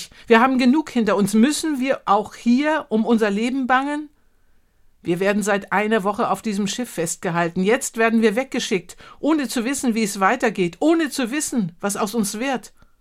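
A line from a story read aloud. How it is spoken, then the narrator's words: Calling out. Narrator (German): rief ich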